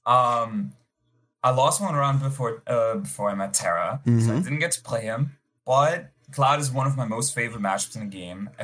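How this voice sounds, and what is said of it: Speaks with an attractive foreign accent. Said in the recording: “You got that sexy accent. Sometimes I just get lost in it.”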